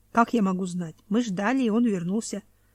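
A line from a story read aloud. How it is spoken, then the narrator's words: Plain. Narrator (Russian): сказал Ариагма Мхаласа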